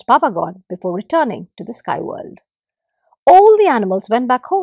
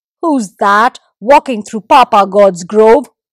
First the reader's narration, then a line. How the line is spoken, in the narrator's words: thundered Lizard with all his might